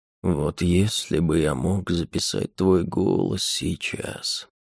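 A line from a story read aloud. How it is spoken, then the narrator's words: Lazy. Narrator (Russian): лениво произнес он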